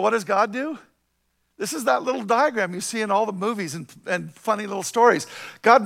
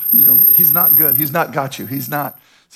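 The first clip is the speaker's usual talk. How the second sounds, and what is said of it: Whispering voice playing Satan. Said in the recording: “Satan is whispering ... He's whispering things ... Satan's trying to whisper in your ear”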